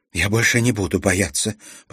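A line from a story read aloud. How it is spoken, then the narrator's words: Whisper. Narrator (Russian): прошептала она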